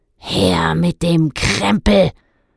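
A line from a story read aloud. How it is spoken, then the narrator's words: Grunted. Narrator (German): grunzte einer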